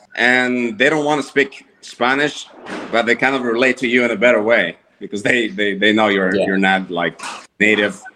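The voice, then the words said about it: Spanish-speaker's accent in English. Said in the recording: “they're Hispanic because of the accent. You can tell my accent”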